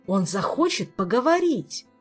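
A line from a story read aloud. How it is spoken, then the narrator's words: Exclaimed. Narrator (Russian): воскликнул Кантор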